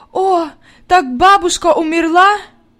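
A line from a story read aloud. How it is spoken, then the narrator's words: Sobbing. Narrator (Russian): Зарыдалась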